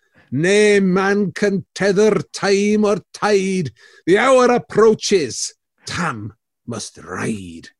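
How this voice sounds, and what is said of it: Put-on Scottish accent. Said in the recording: “your Scottish accent, fleeing it in terror”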